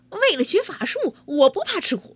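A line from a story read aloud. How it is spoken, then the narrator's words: Loud. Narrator (Chinese): 王七大声说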